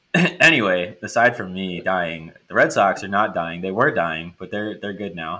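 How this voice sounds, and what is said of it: Unwell, altered-sounding voice. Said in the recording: “I am currently dying um, of COVID, and so that's why my voice sounds different”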